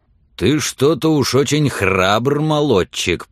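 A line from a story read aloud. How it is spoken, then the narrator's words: Growled. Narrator (Russian): прорычал он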